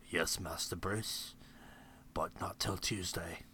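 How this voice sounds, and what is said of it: Good English accent impression. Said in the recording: “you can still do an English accent ... That's actually a pretty good Michael Caine”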